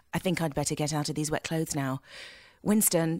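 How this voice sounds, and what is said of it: Flat, boring, unexpressive delivery. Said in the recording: “they wanted her to be very, I'd say, boring, verging on boring ... like Sean Connery as James Bond without the Scottish accent”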